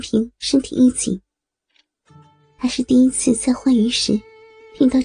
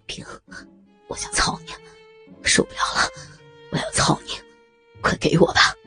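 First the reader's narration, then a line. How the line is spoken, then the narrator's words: Panting, trembling voice. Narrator (Chinese): 他在孙平的身后喘着粗气，声音颤抖的说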